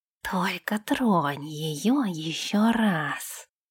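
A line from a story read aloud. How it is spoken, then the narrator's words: Hissed. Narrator (Russian): прошипел Нэш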